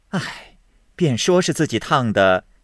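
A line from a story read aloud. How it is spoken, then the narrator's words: Laughing. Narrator (Chinese): 凤姐笑道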